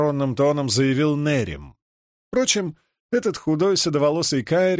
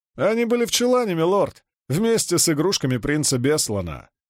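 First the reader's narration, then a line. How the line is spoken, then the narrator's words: Laughing bald man. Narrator (Russian): засмеялся лысый Лопин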